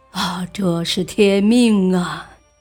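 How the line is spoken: Sighing. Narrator (Chinese): 张悦叹息道

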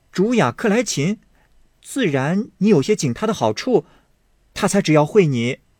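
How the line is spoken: Laughing. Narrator (Chinese): 湘云笑道

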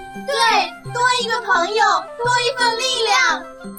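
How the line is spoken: Shouting in unison. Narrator (Chinese): 小兔子、小鸭子也齐声喊道

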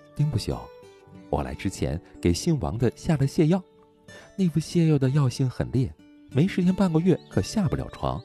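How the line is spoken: Snickering. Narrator (Chinese): 徐清霜偷笑着说

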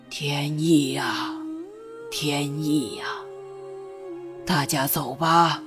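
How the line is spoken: Very old monk murmuring. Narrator (Chinese): 极老极老的老僧喃喃道

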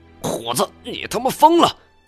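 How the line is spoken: Furious. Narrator (Chinese): 他怒不可遏

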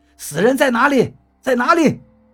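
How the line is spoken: Voice close by. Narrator (Chinese): 那个说车上有死人的声音又出现了，就在我面前

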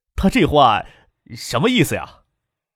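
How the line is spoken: Forced smile, asking. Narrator (Chinese): 强笑着问其他人

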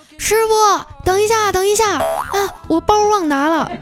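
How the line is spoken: Loud shout. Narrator (Chinese): 彩彩就跑过来大喊

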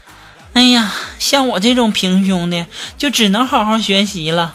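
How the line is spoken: Young woman sighing to herself. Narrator (Chinese): 我同桌的妹子 叹了一口气啊，就自己在那说

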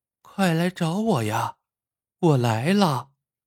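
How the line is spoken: Girl's voice fading. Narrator (Chinese): 那个女孩的声音越来越低

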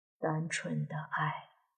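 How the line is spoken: Soft sighing murmur to self. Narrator (Chinese): 莫凡轻轻的叹了口气，低声自语

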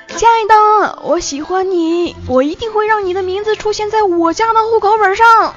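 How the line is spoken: Very loud love confession. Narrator (Chinese): 康贺对暗恋三年的女朋友表白呀，声音特别大的说出了他的心声，说

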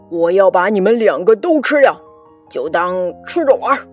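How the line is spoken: Monster roaring. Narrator (Chinese): 怪兽咆哮道

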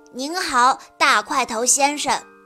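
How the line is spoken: Loud. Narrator (Chinese): 丁丁大声地说

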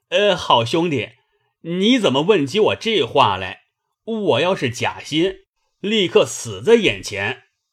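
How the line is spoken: Delighted eager laughing. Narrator (Chinese): 薛蟠……喜得心痒难挠……忙笑道

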